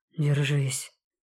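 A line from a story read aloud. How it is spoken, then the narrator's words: Hoarse. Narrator (Russian): хрипло изрекает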